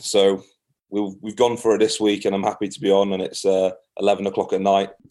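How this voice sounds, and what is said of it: Scottish-sounding accent. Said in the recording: “that Scottish accent is coming through like you wouldn't believe”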